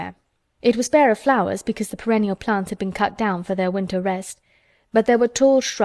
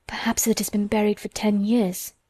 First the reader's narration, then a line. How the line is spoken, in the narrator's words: she said in a whisper